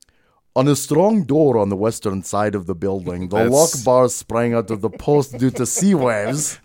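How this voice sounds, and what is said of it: Put-on guttural Dutch accent. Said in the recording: “can I do a Dutch accent? ... It's the Pixar Scottish accent again. ... It's a little more guttural.”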